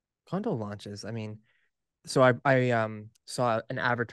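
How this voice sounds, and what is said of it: Usual voice. Nothing is said of it.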